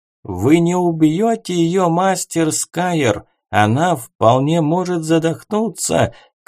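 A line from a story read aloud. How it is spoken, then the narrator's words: Elder shouting. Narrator (Russian): крикнул старейшина Эон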